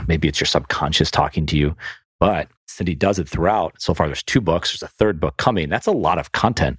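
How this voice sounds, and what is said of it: Western New York-Southern hybrid accent. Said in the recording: “There's that accent again. ... Got to work on that New York accent. ... it's Western New York, buddy. ... in the South. It's a mixed hybrid.”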